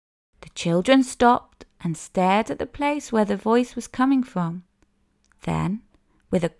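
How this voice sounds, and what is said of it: Usual voice. Nothing is said of it.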